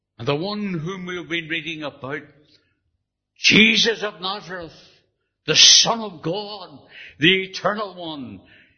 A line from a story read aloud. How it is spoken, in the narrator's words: he cried